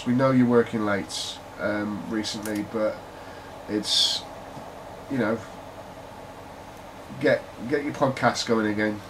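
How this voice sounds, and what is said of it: British Brummie accent. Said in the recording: “I've got a British accent, a Brummie accent”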